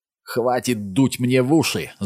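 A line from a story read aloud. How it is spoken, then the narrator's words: Yelled. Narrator (Russian): заорал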